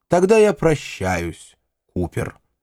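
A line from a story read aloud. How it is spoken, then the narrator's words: Plain. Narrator (Russian): сказал Уайли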